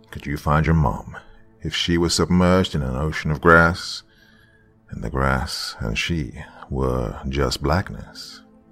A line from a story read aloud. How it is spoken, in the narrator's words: I sighed